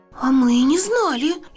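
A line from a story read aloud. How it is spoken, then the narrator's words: Frightened. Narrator (Russian): испуганно сказала Крапинка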